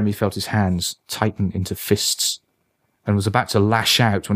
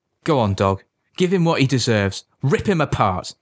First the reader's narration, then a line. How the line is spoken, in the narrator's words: Jeremy called out